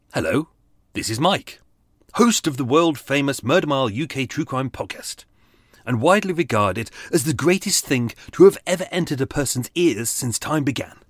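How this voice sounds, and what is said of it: Switched-on podcast host voice. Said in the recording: “put on my podcast voice. This is not my podcast voice. ... Switch on podcast voice.”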